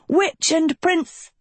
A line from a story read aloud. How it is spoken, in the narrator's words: shouted another